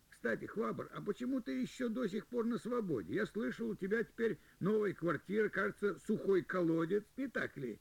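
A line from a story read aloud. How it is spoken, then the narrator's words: Cheerful laughter. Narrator (Russian): И Джу весело рассмеялся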